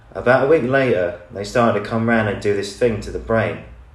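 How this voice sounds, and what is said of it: Reads in a put-on accent. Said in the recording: “I'll be practicing with an accent. I'll do it with an accent”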